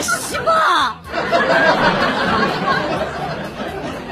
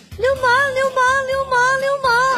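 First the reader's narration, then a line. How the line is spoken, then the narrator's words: Incessant shouting. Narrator (Chinese): 老婆还在不停的喊着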